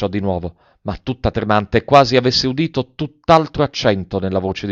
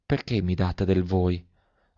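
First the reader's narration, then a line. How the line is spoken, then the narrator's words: Girl's faint murmur. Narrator (Italian): mormorò la fanciulla con un fil di voce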